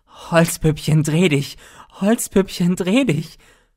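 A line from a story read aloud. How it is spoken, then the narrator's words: Piercing shriek, gruesome laughter. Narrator (German): grausig dazwischen lachend, schrie er in schneidendem Ton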